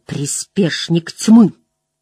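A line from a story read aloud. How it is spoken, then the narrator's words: Growl. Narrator (Russian): Мэтт прорычал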